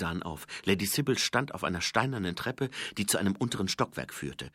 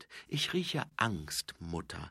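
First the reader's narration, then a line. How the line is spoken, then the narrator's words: Plain. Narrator (German): sagte Angua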